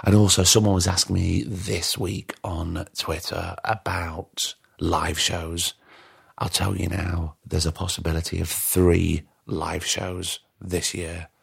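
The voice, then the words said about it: Tired, strained voice giving out. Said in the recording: “Can you hear my voice is going? It's very late. I'm tired.”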